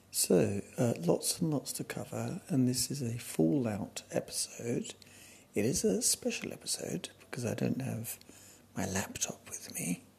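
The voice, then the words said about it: Quiet, hushed speaking voice. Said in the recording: “I am a quiet one today ... all around me people are sleeping, so I've got to be really quiet”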